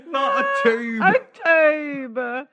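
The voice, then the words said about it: Imitates another person's voice. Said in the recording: “such a good impression ... the delivery on, on tube was really something”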